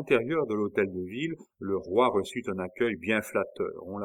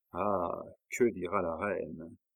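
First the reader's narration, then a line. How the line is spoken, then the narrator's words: Sighing. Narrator (French): avec un soupir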